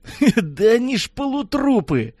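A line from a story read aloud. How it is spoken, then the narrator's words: Hoarse chuckle. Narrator (Russian): сипло хохотнул водитель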